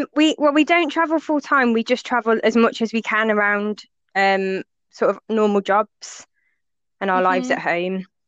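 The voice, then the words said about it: Speaks with a regional accent. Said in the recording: “I love your accent”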